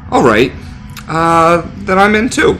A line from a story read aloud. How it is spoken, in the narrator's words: Tyler said hesitantly